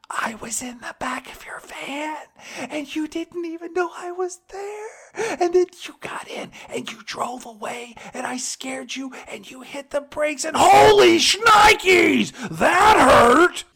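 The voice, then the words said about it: Excited voice with screaming bursts. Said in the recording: “it always sounds like he is so excited to have a really big secret... his speech gets interrupted by these bursts of him doing a Chris Farley screaming impression”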